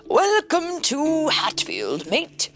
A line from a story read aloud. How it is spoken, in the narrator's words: bellowed Bulldog